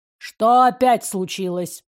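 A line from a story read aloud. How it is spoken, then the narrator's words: Mild grumble. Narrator (Russian): проворчал Римас без капли злости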